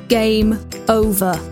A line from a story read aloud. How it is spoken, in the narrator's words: the voice from the heavens boomed